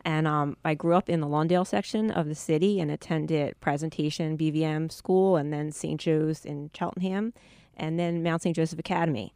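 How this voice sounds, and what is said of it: Philadelphia accent. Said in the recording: “I'm a native of the Philadelphia area, which your listeners can probably tell from my accent.”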